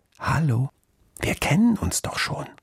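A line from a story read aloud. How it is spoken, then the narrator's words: Child's conspiratorial whisper. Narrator (German): flüsterte das Menschenkind verschwörerisch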